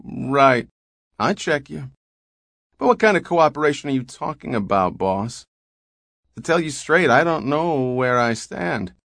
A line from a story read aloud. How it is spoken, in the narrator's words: Devers said blandly